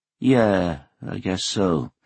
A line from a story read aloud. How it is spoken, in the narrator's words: Hoshino said in a gloomy voice